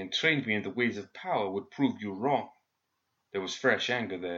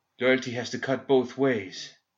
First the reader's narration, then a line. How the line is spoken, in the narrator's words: Kairis panted, the effort of maintaining the flow of fire sending tracks of sweat through the ash on her face